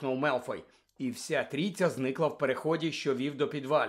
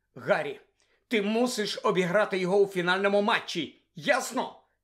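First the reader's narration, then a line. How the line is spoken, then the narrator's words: Desperate exclamation. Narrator (Ukrainian): Відчайдушно вигукнула Герміона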